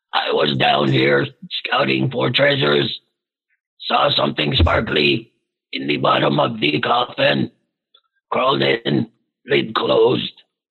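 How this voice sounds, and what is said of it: Speaks in a character voice. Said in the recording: “I forgot my character voice.”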